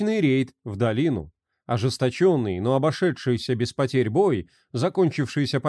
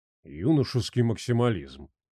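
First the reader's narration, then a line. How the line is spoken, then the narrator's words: Snort. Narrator (Russian): хмыкнул Жмых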